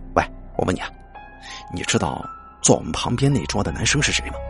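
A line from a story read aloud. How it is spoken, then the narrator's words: Lowered voice. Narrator (Chinese): 这个学长压低声音说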